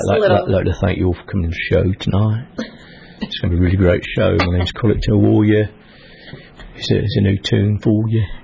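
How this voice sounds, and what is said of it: Put-on British accent. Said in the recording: “I had this British accent.”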